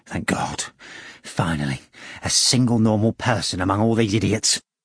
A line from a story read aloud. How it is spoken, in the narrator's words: Ivan Nikolaevich muttered